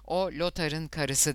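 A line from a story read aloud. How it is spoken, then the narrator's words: Plain. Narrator (Turkish): dedi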